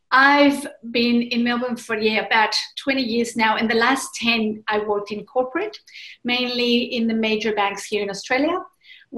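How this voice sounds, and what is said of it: Spanish-speaking Mexican accent. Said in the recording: “originally from Mexico City. So therefore, the accent is Spanish speaking.”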